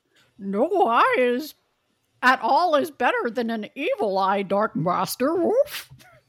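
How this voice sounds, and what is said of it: Dog character voice. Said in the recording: “That's your dog dialect. Genius.”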